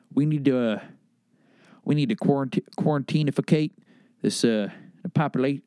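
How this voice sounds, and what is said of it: George Bush impression, southern drawl. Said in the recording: “My country accent's turning into my southern accent's turning into a little bit of a Bush ... George Bush ... I can only do so many voices”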